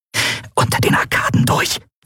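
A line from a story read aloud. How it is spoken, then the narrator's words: Hiss. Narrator (German): zischte Endriel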